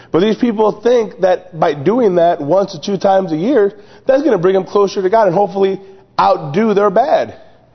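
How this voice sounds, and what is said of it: Strained, worn-out voice. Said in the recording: “sorry for my voice... I've been screaming and yelling all these camp songs, so I'm a little out of it.”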